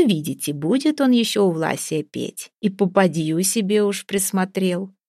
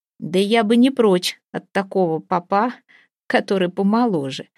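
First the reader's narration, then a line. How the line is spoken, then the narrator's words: Laughing. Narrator (Russian): смеялась Ваволя, давняя знакомица Ваяты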